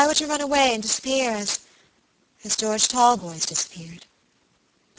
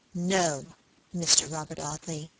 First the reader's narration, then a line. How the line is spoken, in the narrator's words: she said aloud in a low, clear voice